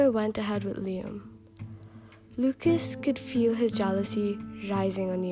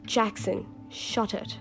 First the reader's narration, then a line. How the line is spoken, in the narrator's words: laughed Amber